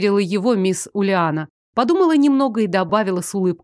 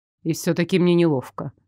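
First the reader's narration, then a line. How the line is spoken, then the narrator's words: Mutter. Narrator (Russian): забормотал Лоренс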